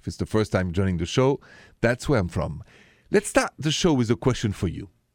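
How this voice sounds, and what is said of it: French accent. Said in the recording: “The accent, by the way, is French.”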